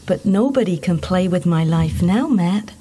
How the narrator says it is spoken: she said happily

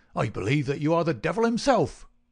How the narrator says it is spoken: he cried

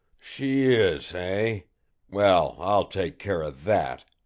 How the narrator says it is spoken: growled Balcom

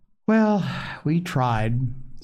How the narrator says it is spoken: said Polly, stilling a sigh

